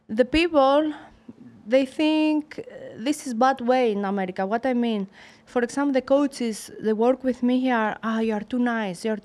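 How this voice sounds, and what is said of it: Non-native English accent. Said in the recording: “My accent”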